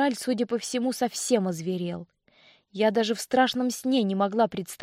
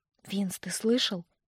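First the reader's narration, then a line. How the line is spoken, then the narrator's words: Quiet question. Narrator (Russian): негромко спросила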